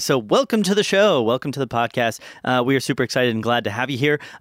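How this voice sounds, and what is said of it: Raspy, strained voice. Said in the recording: “you can probably hear it ... you can hear it in my voice still ... my voice has been shot for the last couple of days ... this is like the first day you can actually still hear it ... all of our fans like the raspy”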